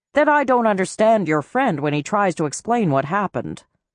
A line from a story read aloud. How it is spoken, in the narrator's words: she said in an even tone that seemed impartial but implied disapproval